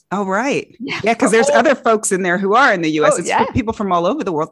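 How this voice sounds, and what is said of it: Accent that sounds American. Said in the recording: “because of your accent, I actually thought you were based in the US.”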